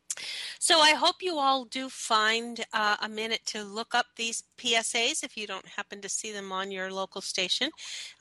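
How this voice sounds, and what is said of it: Slightly raspy voice. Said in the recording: “I'm on the tail end of a cold, so my voice is a little raspy”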